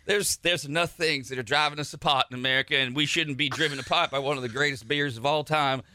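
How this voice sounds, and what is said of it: Put-on Cajun accent. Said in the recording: “Sounds like a Cajun now... I get that Cajun accent”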